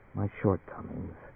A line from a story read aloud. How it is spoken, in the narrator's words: Her voice sank almost inaudibly, she said